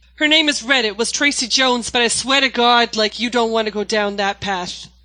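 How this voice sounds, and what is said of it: 1930s Boston gangster accent. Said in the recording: “I play like a 1930s gangster named Red from Boston ... Can you do a bit of the accent?”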